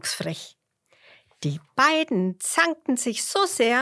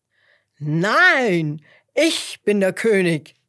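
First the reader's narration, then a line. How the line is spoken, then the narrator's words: Lion calling out. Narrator (German): rief der Löwe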